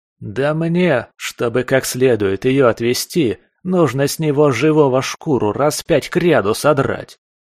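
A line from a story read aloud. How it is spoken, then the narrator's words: Plain. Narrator (Russian): ответил псих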